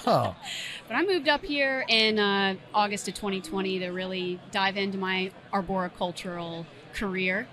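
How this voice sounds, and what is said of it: Slight twang accent. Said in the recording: “You got a little twang. ... A little bit. ... A little twang. I hear it.”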